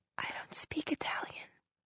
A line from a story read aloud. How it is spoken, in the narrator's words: she said, very softly